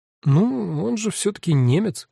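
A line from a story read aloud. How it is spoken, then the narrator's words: Uncertain. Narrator (Russian): неуверенно сказала Даля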